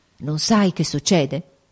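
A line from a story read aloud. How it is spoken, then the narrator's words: Quiet grave uneasy exclamation. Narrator (Italian): esclamò piano il duca, ma con aria grave ed inquieta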